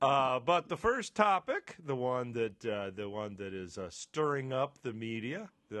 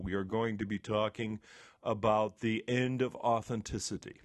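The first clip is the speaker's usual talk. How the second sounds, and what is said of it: Public radio announcer voice. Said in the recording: “did you notice how I slipped into my NPR voice”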